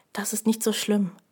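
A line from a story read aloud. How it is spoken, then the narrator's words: Quiet speech. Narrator (German): sagte er leise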